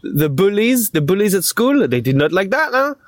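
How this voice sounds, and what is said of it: Strong French accent. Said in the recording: “I used to speak like this. I had a very strong accent ... that little uh, spell of French coming into my ears”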